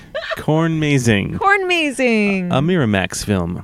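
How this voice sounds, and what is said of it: Imitates a movie studio announcer. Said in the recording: “my Miramax impression ... I'm number one in impressions”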